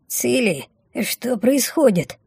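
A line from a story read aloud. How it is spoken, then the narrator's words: Trembling voice question. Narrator (Russian): дрогнувшим голосом спросила Мина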